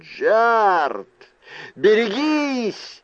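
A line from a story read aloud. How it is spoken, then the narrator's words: Yell. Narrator (Russian): заорал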